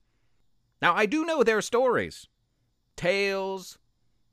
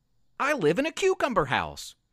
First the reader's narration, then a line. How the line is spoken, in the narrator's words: Luke said excitedly